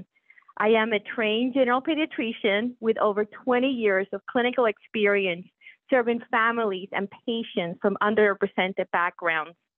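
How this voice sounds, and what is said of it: Puerto Rican accent. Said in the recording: “when people ask me where my accent comes from, I proudly share with them that I was born and raised in Puerto Rico.”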